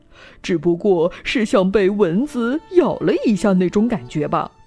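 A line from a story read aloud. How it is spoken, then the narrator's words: Smiling, cheerful. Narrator (Chinese): 医生笑眯眯地说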